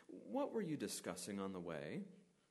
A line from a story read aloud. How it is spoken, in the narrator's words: he's gently asking a question, kind of like the parent that knows what's just been up to